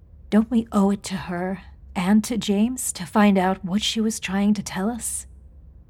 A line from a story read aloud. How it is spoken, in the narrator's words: In a soothing voice, she added